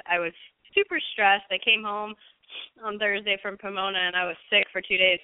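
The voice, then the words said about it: Raspy voice. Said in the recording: “why my voice is raspy”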